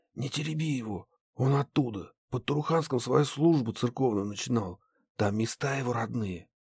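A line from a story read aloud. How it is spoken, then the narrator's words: Whisper. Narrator (Russian): Захар шепнул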